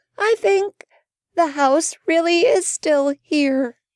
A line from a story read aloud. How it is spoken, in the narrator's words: Annabel groaned